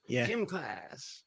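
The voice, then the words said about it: Put-on American accent. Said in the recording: “Definitely found my American accent there”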